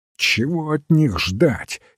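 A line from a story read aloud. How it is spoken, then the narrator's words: Angry. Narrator (Russian): сердито сказал Кокспер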